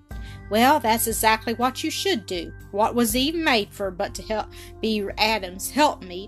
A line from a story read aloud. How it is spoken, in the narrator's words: he returned with an unpleasant laugh